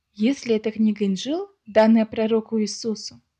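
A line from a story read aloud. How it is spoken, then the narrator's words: Plain question. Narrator (Russian): спросил я Ахмеда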